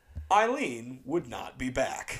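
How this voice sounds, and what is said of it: Arrested Development narrator impression. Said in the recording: “put on my Arrested Development narrator voice”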